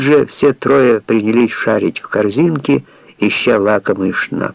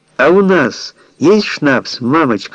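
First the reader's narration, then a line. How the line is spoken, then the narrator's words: Girl shouting. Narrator (Russian): закричала девочка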